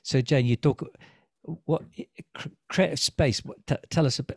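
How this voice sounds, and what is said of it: Poor Ali G impression. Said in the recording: “I sound a bit like Ali G ... it's a terrible impersonation”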